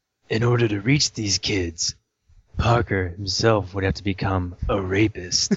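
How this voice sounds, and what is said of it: Will Arnett impression. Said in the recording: “in your best Will Arnett voice ... In my best Will Arnett voice or my best John Holmes doing Will Arnett voice?”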